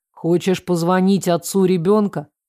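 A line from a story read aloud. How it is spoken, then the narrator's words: Plain. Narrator (Russian): спросил он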